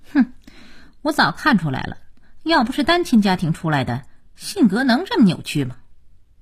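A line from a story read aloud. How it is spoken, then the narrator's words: Cold sneer. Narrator (Chinese): 佳期冷冷一笑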